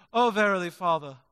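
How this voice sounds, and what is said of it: Nasal, mock-British prayer voice. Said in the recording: “change my voice to sound perhaps a bit British when I pray ... get a little nasally too ... that accent is kicking”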